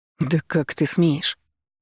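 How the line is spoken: Through gritted teeth. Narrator (Russian): сквозь зубы, процедил его названный брат

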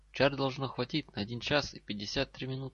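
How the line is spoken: Plain. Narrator (Russian): сказал Гарри

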